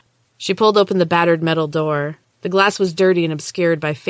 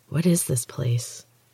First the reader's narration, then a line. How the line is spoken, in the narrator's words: whispered